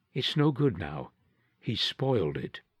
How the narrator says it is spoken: Zenobia said softly

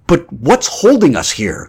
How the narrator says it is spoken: Grant exclaimed

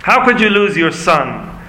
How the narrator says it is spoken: one boy called out

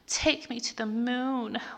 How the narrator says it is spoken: Leela groaned as his dick swirled inside of her

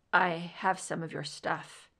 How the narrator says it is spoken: he said quietly

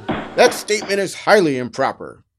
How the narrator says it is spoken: Judge David shouted, angrily jumping from his chair behind the bench

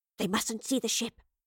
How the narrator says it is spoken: she whispered

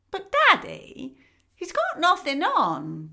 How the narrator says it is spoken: piped up a small child

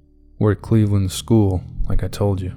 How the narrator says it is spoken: said Rob

